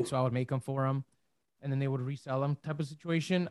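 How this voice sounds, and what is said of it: Strained voice, losing it. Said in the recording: “I'm losing my voice here.”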